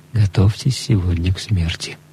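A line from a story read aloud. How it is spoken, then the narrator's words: Whispered announcement. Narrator (Russian): приносящий пищу объявил нам шепотом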